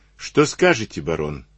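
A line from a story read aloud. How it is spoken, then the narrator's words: Plain question. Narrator (Russian): спросил его Штоквиц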